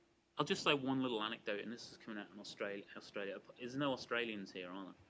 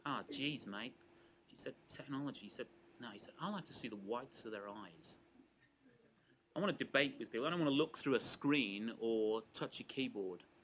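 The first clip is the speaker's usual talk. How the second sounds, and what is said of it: Deliberately bad put-on Australian accent. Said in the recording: “apologies if I attempt a very bad Australian accent”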